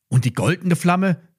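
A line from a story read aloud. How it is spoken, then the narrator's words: Call. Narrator (German): rief Lilly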